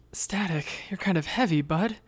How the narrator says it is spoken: groaned

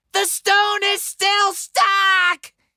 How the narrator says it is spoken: I shouted

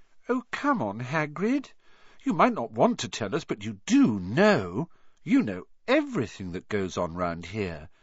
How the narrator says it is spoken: said Hermione in a warm, flattering voice

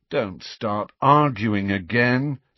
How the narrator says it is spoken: said Harry wearily

